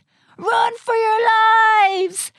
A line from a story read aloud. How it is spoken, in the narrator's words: squealed a young vampire as he ran past them